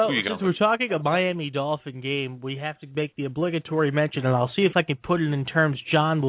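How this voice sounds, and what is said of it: Usual voice. Nothing is said of it.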